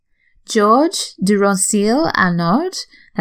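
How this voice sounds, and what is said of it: Attempted French accent. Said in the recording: “that's my best French accent”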